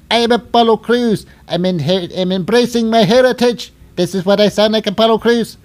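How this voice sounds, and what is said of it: Exaggerated put-on accent. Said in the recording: “crazy accent guy”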